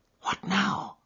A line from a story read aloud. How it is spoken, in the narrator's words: whispered Holmes